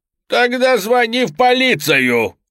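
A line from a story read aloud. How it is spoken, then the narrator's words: Barked by severed head. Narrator (Russian): рявкнула отрубленная голова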